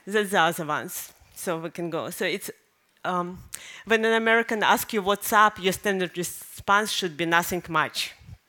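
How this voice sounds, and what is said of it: Foreign accent. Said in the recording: “I'm embarrassed of my accent, that is still here”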